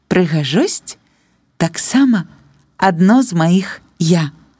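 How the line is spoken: Embarrassed but very clear. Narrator (Belarusian): Галенка трошкі збянтэжылася і разам з тым вельмі выразным голасам сказала

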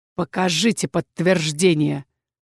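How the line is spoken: Hissed. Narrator (Russian): прошипел он

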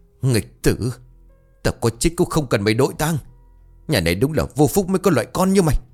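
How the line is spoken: Furious hiss through teeth. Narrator (Vietnamese): Ông Cảm tức đến nghiến răng nghiến lợi, ông rít lớn

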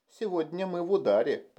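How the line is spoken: Flattered purr. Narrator (Russian): промурлыкала польщенная Сьюзи

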